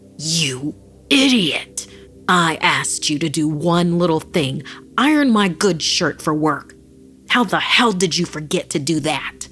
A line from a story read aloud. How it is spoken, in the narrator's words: Filled with rage, Antonio found himself bellowing